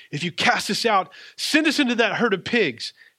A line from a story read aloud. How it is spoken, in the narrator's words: the demons begged him, said